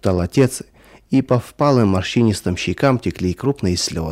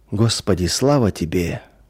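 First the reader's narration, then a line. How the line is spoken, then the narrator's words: Quiet murmuring. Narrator (Russian): тихо приговаривал он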